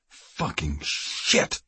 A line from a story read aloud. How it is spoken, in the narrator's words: Kiefer growled